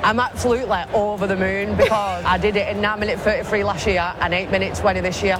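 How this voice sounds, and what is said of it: Wigan accent. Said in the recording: “She's from Wigan. ... you can tell she's from Wigan. ... I love that accent.”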